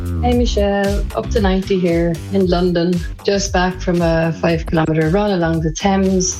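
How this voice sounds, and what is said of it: Out of breath. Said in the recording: “So just back now, a little bit out of breath.”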